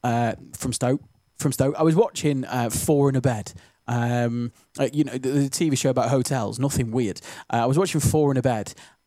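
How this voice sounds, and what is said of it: Stoke-on-Trent English regional accent. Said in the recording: “That was really stokey how I said that then ... I am from these parts and I can say it like that ... usually my accent doesn't really slip out much on the radio ... very distinctive, isn't it, our accent”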